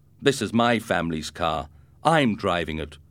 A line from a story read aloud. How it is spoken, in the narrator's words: exclaimed Ricardo